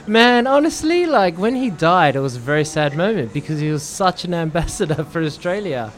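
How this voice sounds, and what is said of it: Australian accent. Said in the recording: “dating in the States right now with your accent goes a long way ... play up the Australian thing”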